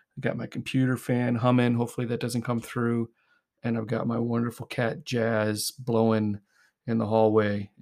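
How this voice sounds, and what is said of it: Hoarse, strained voice. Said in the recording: “My voice is a bit shredded.”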